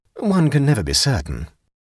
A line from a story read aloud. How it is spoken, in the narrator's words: said Clovis